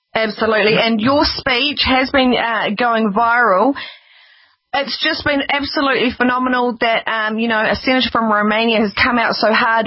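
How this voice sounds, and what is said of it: New Zealand accent, speaking slowly. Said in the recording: “I'm trying to speak slowly ... our Kiwi accent is a little bit unusual ... for others we know it's harder to understand”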